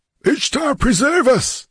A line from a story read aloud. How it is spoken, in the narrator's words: shrieked Strabonus, paling